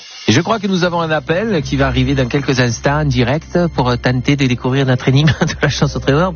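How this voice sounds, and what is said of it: Silly put-on accent. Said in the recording (French): “cet accent ridicule”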